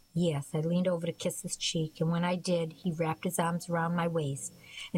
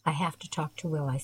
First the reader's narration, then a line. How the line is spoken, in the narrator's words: I said softly